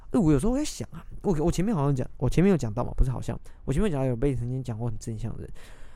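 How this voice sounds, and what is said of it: Strained, slightly catching throaty voice. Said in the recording (Chinese): “我就是喉咙怪怪的，听起来有点卡卡的”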